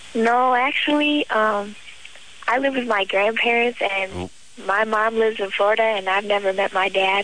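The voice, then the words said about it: Little girl voice. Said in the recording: “you got that little girl voice”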